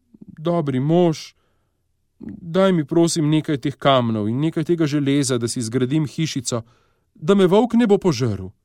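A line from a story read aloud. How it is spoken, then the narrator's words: Pleading. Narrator (Slovenian): Prosila ga je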